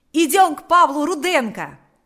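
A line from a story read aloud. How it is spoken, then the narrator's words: Shouted. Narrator (Russian): закричал Панас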